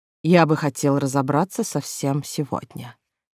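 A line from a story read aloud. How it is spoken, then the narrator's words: Soft but insistent, older man. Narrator (Russian): мягко, но настойчиво произнес старший из моей свиты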